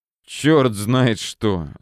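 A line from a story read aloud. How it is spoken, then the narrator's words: Annoyed hiss. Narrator (Russian): с досадой прошипел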